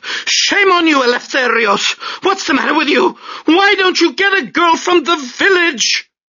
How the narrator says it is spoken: she shouted

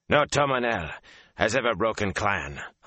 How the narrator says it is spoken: Han barked

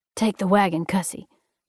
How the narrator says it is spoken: Jackson rasped as he tried to pull himself up to his knees

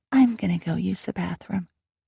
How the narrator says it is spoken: whispered

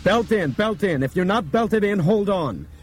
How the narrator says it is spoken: Brian grabbed the microphone and shouted

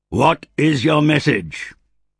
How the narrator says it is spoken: Druss bellowed down from the battlements

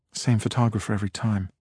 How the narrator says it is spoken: Amy murmured

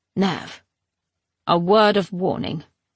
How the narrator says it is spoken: she said gruffly

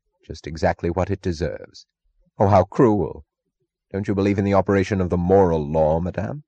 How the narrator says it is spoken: Francisco asked gravely

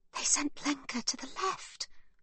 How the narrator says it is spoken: whispers Livy

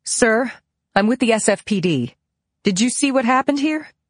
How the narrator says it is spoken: speaking loudly, I said

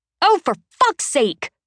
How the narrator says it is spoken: Charisse snaps

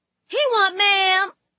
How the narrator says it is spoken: she screams

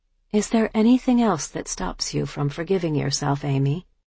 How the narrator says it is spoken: gently continued

